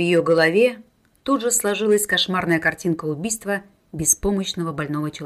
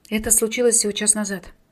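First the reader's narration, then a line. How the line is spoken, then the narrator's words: Mumbling into phone. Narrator (Russian): пробормотала в трубку Мариша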